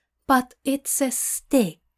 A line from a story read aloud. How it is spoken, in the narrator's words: Aziraphale says in a careful tone